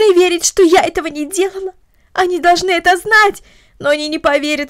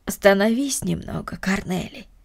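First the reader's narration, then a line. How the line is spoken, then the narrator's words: Tender, gentle. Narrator (Russian): ласково сказала Марта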